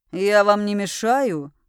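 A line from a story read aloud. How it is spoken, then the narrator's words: Growling. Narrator (Russian): рыкнул магистр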